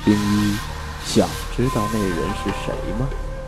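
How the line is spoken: Soft whisper in ear. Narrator (Chinese): 魏凌风，贴在我耳边，轻声道

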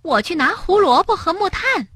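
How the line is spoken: Calling out. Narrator (Chinese): 跳跳叫道

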